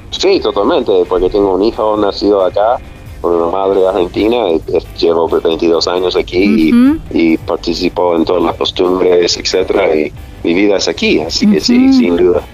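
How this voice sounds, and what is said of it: Non-Argentine accent in Spanish. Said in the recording (Spanish): “escuchar con tu acento que, que, todavía conservas”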